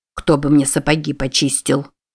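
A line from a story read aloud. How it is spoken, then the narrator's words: Grumbling. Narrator (Russian): ворчал он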